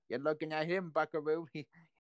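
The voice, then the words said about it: Put-on Brooklyn accent. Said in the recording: “says in the Brooklyn accent”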